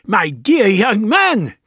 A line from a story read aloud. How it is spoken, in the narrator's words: cried the Doctor